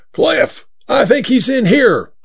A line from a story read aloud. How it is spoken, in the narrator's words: yelled to the man at the pump